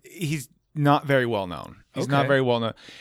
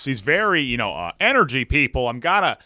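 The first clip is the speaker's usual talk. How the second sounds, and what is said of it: Loud energetic announcer-style voice. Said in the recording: “He talks like this... a very announcer voice sounds like”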